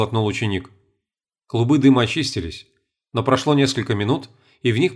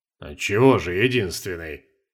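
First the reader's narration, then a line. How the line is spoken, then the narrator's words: Flattered grumble. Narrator (Russian): польщенно проворчал маг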